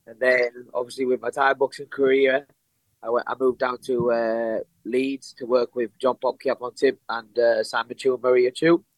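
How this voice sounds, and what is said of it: Northern English accent. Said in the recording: “that accent doesn't sound like you would be from Abu Dhabi ... Originally, I'm from the north of England, a place called Darlington.”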